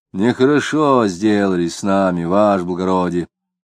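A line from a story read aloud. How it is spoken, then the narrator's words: Old man's muffled bass. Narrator (Russian): глухим басом сказал лысый старик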